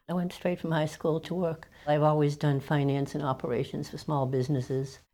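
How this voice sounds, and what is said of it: New England accent. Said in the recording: “That's definitely a New England accent you hear.”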